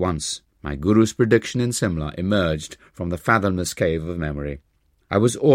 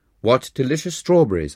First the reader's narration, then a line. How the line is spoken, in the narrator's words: I exclaimed